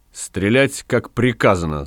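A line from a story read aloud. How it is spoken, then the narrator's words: Stern. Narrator (Russian): строго сказал Гай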